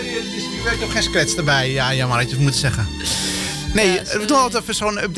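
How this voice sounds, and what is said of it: Usual voice. Nothing is said of it.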